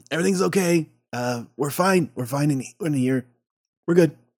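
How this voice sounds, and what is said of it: Loud whisper. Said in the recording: “Whisper under the door ... She whispers. She talks as loudly as she possibly can.”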